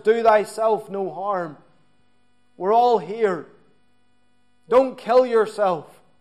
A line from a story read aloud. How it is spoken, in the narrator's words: Paul he had cried out